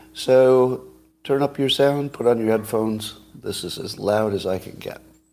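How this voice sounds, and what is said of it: Raspy, quiet laryngitis voice. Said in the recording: “my voice is a little raspy, got a little laryngitis.”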